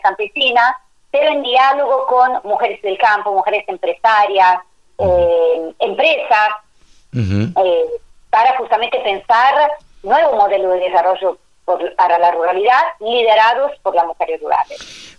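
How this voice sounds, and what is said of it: Italian accent speaking Spanish. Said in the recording (Spanish): “yo te escucho un acento italiano? ... Sí, italianísima.”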